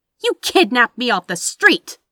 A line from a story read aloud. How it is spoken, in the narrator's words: Anathema snapped back, indignantly